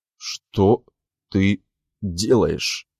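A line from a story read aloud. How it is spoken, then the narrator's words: Stammering. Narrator (Russian): запинаюсь я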